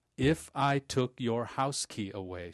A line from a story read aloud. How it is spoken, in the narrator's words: she barked slowly